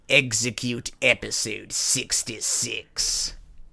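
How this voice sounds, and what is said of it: Emperor Palpatine character voice. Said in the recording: “I should stop doing the voice ... the most Emperor Palpatine thing”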